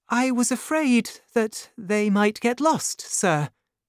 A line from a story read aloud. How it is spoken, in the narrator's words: she replied nervously